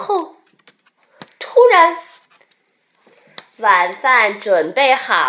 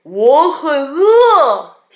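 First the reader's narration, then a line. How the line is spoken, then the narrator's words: Roaring. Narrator (Chinese): 熊吼道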